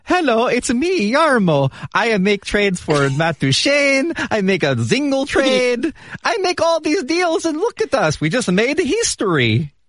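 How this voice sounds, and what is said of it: Bad put-on Finnish accent. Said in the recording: “worst Finnish impression of all time”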